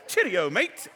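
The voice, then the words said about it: Put-on English accent. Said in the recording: “She can speak with an English accent ... So we'll go English accent.”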